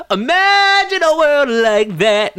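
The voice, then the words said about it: Imitates another person's singing voice. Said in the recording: “my John Mayer impression”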